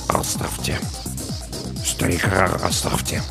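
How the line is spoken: Mumble. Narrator (Russian): Саакас пробормотал

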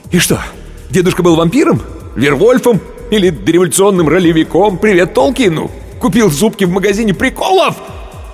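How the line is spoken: Yelling. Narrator (Russian): Он уже орал

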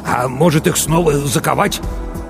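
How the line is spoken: Angry smirk. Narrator (Russian): Матвей зло усмехнулся

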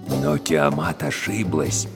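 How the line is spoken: Lowered voice, hushed. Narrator (Russian): перевел шепот Гильгамеш Абдулла, сам непроизвольно понижая голос

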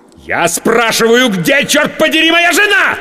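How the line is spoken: Losing control, yelling. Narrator (Russian): сорвавшись, заорал я

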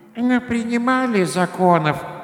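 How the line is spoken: Grumbling old woman. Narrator (Russian): ворчала старуха

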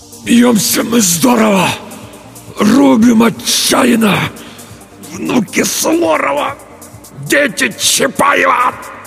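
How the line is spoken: Forced out, exhausted. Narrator (Russian): Только и смог выдавить Петр

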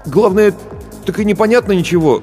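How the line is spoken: Bewildered. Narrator (Russian): растерянно произнес Барботько

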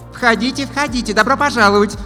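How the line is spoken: Loud chirping young blonde. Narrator (Russian): Довольно громко защебетала блондиночка

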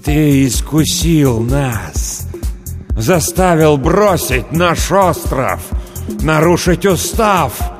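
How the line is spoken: Shouting over hissing whispers. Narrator (Russian): Никола закричал, перекрывая свистящий шепот

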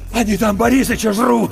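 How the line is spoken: Shaking, horrified outcry. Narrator (Russian): выкрикнул Иван, и его затрясло

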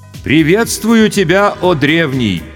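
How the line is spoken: Loud, respectful. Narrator (Russian): почтительно и громко произнес старший майор госбезопасности

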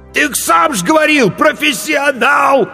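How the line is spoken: Desperate shout. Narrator (Russian): отчаянно выкрикнул корчмарь

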